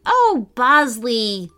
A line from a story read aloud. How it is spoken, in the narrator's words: Lila sighed